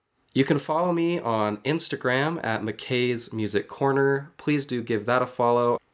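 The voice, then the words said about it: Congested voice from a cold. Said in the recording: “I sound kind of weird. ... I am still recovering from like a head cold type of thing, so I'm still a little congested.”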